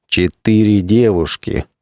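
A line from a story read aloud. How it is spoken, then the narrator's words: Menacing repetition. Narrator (Russian): грозно повторил, чтобы что-нибудь сказать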